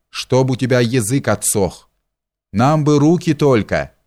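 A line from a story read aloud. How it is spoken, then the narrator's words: Man laughing. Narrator (Russian): засмеялся другой палач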